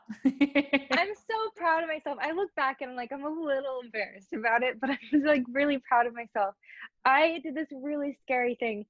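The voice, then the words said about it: Emotional, voice close to tears. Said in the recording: “getting emotional”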